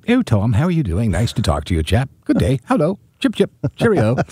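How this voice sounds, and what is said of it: Put-on English accent. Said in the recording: “a really nice English accent”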